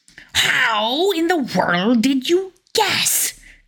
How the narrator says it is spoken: cried Koschei in a fury

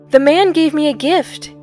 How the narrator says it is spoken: Gib cried out

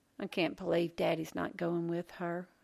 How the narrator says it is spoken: Lolly muttered

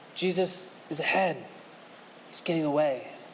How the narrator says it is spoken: the voice whispers

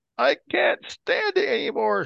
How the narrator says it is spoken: she shrieked

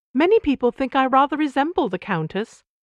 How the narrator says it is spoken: Caroline supplied cheerfully

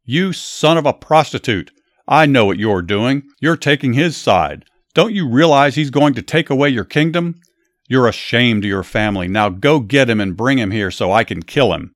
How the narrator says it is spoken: Saul yelled at his son

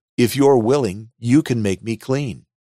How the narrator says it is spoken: begged Jesus

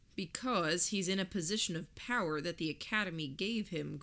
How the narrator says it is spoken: Gordon said

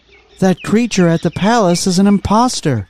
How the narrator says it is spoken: cried the sorceress

